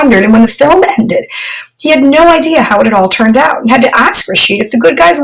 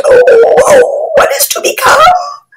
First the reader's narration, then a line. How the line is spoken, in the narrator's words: she spoke firmly and with certainty